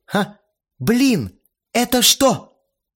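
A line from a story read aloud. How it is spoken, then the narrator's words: Surprised exclamation. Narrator (Russian): Удивленно воскликнула Ирина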